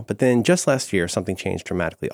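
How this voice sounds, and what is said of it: Calm public-radio narrator voice. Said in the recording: “Already I'm starting to talk in my NPR voice.”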